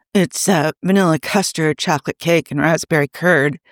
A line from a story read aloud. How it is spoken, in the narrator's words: Carl mumbled